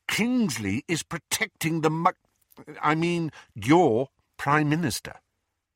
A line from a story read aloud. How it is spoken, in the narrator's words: he said through gritted teeth